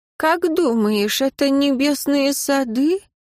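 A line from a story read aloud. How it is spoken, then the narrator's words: Dead man's hollow voice. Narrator (Russian): Голос мертвеца звучал глухо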